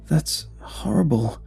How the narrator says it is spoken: Joanne gasped

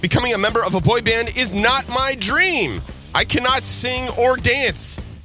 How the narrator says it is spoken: Vladislav pleaded repeatedly during the show

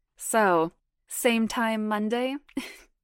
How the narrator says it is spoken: He laughed

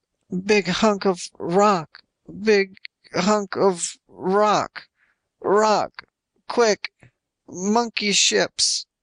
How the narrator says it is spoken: all he could manage was

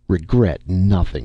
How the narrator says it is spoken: he snapped

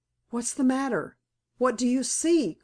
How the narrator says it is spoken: cried Joe

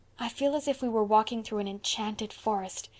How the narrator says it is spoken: said Anne in a hushed tone

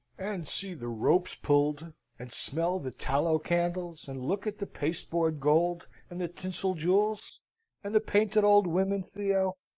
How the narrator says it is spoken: cries Theo

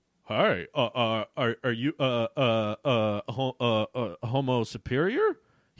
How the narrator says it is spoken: He asked nervously

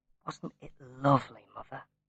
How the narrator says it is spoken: He said quietly

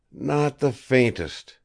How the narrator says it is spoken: he replied hoarsely

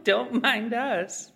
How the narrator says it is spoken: chuckled the other

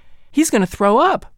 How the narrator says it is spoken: my sisters cried

